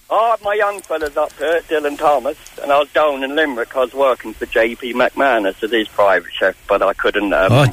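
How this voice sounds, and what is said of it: Mixed London and Cork accent. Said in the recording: “where's the accent from ... London, Cork. It's a mix, you know. So everyone says, are you from Australia?”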